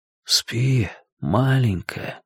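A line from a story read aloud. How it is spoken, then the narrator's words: Whispered. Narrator (Russian): прошептал Расти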